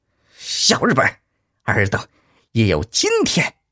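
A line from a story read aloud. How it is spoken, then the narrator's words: Angry roar from above. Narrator (Chinese): 云上一声怒吼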